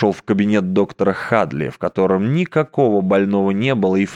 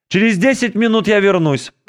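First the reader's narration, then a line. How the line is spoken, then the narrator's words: Shout. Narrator (Russian): крикнул он в дверях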